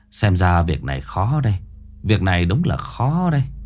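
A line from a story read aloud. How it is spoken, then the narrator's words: Sighing. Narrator (Vietnamese): Lão Ba Quân thở dài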